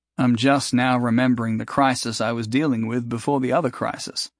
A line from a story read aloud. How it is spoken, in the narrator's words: he said